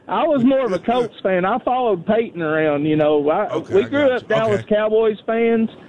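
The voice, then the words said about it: Strong noticeable accent. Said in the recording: “I love your accent ... what an accent that guy's got.”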